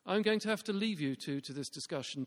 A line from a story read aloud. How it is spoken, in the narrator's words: Tom said